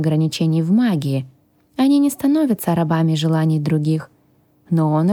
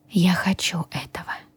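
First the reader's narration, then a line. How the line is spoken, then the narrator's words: Quiet. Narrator (Russian): тихо произнесла я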